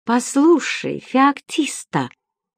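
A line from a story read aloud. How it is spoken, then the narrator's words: Slow. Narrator (Russian): медленно начал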